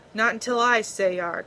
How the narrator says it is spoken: Tarver growled

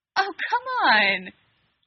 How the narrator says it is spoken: Dean laughed

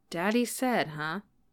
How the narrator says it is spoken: Peter mumbled

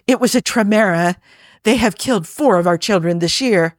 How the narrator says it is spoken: the village elder hobbled up beside him and said breathlessly

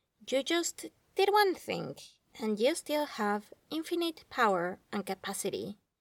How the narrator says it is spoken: Clay says flatly, like talking to a child

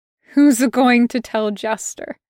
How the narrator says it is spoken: He laughs again, and it's this horrible, pathetic sound

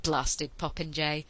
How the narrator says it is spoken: the Admiral grumbled

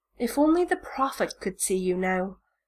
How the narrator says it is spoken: Malfoy murmurs

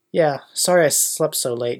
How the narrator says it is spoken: Ginny replied

